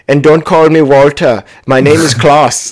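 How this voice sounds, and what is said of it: German accent. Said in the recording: “the German accent is yours to try”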